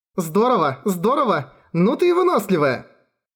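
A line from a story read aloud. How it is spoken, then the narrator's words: Cheerful. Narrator (Russian): Весело проговорила Фредерика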